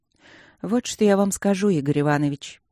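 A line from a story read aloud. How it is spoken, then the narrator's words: Sigh. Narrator (Russian): наконец вздохнула Люджина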